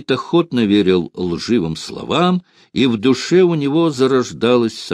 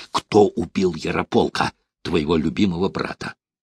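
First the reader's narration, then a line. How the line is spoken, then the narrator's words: Malicious whisper. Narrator (Russian): Он стал нашептывать Святополку, тараща злые глаза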